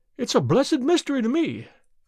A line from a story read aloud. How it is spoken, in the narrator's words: cried Pycroft